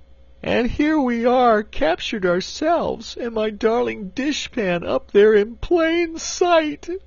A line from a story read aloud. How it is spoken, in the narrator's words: wailed the Cookie Cook, wiping her eyes